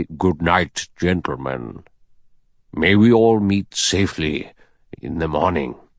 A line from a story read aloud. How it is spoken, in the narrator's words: The judge said gravely